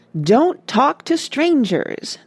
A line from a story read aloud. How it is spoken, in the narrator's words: they cried